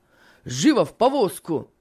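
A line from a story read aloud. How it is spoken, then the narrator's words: Shout. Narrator (Russian): крикнул Финиас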